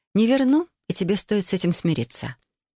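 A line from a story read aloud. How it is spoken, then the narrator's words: Calm. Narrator (Russian): спокойно произнесла я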